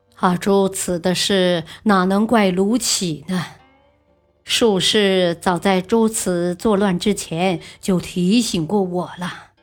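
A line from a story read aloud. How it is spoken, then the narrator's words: Troubled mumbling. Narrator (Chinese): 德宗不是滋味，喃喃的说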